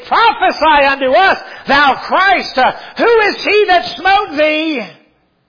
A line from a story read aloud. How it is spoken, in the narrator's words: Others yelling mockingly